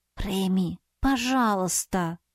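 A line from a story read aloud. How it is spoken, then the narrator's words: Sigh. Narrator (Russian): вздохнула я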